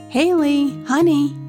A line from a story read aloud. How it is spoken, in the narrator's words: he called out